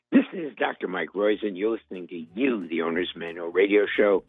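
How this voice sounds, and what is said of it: Hoarse voice. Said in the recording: “I'm sorry I'm so hoarse.”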